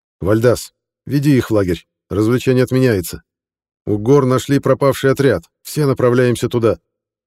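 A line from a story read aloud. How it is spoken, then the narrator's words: Shout. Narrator (Russian): крикнул он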